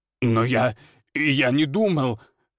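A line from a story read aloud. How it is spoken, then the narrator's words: Headman babbling. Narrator (Russian): лепетал староста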